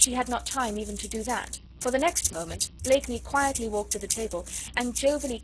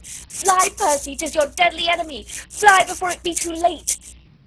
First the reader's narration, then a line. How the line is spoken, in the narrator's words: she very nearly screamed out to him